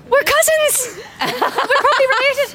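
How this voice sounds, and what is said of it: Weak put-on Irish accent. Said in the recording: “That's a very Irish sounding accent. ... Not so good. ... Sorry, my accent was bad.”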